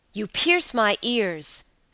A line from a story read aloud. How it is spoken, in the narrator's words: said Carmilla, almost angrily